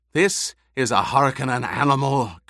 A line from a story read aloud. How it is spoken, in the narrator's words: Gurney rasped